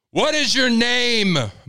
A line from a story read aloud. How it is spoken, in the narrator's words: Miles yelled